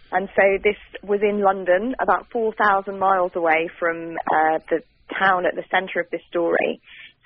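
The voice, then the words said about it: British accent. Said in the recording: “You can probably hear from my accent that I'm British.”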